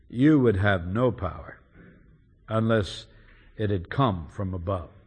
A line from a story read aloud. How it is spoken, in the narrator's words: our Lord, with quiet dignity, simply replies calmly